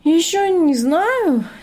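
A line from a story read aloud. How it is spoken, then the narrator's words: Uncertain reply. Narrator (Russian): неуверенно ответил Артем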